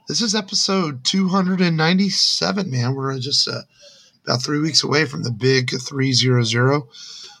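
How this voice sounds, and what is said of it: Tired, slightly hoarse voice. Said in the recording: “I'm just a little tired and can kind of hear it in my voice. My voice is a little shot from my allergies this week”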